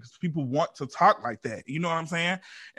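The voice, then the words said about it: Regional accent. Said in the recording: “just be really proud of just the way I talk alone... Just my accent and the way I talk and the words that I use... somebody who has this accent”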